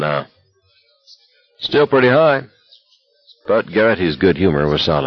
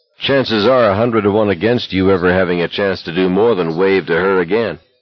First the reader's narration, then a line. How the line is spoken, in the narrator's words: McVreeze said flatly